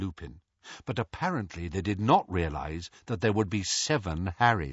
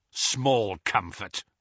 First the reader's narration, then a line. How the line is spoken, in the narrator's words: snarled Kingsley